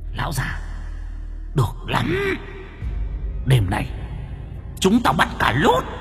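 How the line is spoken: Menacing growl. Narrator (Vietnamese): Chúng nó gầm gừ

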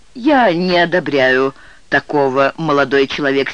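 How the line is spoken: Angry judge's reply. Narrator (Russian): сердито ответил судья

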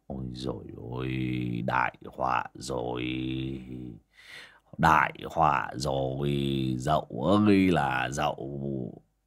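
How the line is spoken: Dazed muttering. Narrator (Vietnamese): bác Vó đờ đẫn cả người mà lẩm bẩm

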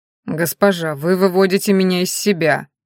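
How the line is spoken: Exasperated outburst. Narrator (Russian): не выдержал оборотень

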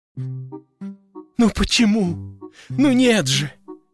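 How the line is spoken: Bitter sobbing. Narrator (Russian): Гарик горько рыдал

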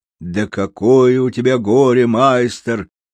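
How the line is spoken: Deliberately loud, carrying. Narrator (Russian): нарочно громко, так что его было слышно на всю площадь

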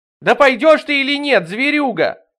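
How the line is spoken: Screaming over a storm. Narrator (Russian): завопила она, перекрывая шум бури

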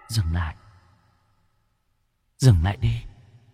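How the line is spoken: Whispering in ear. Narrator (Vietnamese): tiếng ai đó cứ thì thào ở bên tai

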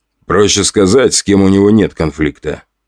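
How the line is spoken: Man snorting. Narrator (Russian): хмыкнул мужчина в форме

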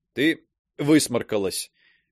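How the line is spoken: Stifling laughter, feigned gloom. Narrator (Russian): Пытаясь не засмеяться, как можно угрюмее сказал я

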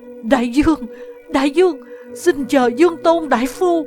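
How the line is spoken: Trembling cry. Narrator (Vietnamese): Chuyên Nghị run rẩy kêu lên

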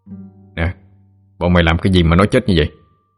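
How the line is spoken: Stern question. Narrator (Vietnamese): Chú nghiêm giọng hỏi

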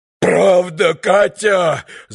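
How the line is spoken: Yelled. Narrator (Russian): завопил друг Митя

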